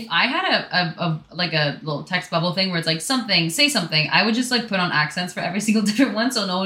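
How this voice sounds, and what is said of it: Usual voice. Nothing is said of it.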